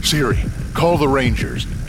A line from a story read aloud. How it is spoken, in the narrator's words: he panted